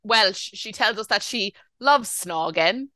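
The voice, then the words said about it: Put-on Welsh accent. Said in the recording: “That's my Welsh accent.”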